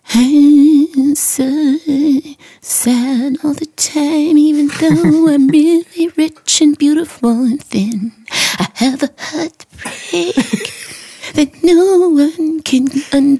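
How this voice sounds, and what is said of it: Mopey impression of current pop singers. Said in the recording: “this current generation, it's kind of like... I'll do my impersonation.”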